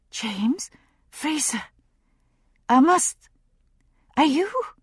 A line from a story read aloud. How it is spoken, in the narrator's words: She was panting for breath, her chest heaving